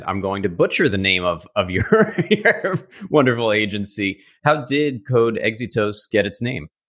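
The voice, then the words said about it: Strong New York accent. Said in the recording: “my awful New York accent”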